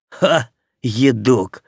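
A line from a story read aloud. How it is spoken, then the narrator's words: Snorting. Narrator (Russian): фыркнул Аким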